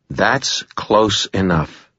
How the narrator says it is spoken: I said in a cold voice

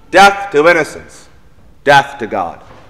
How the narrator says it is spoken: scream together

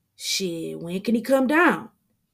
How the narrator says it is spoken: Damien asks excitedly

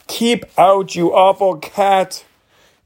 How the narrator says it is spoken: heard the girl scream

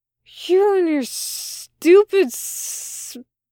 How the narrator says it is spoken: Crowley said in a slurred hiss

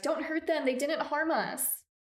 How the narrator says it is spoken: the women cried

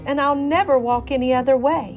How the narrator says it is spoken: he cried

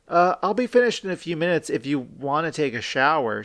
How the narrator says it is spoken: she said

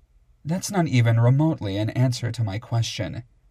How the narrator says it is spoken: said in a disapproving tone that sounded badly like my mother

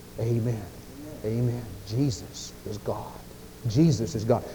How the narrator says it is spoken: the Holy Spirit inside of our hearts whispers

